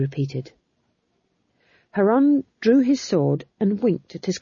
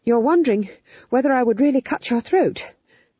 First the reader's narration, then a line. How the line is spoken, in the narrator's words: panted McGrath